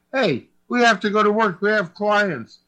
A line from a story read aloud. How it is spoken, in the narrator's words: He yelled at Big Bessie